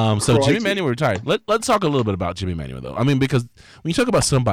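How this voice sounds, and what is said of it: Usual voice. Nothing is said of it.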